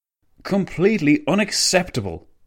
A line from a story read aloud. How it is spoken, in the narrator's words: the Italian premier spat